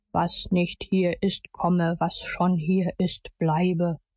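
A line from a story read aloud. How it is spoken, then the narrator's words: Solemn recitation. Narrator (German): deklamierte mit feierlicher Stimme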